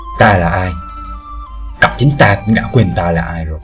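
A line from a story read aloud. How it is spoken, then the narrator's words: Old man sighing. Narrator (Vietnamese): Lão giả thở dài một tiếng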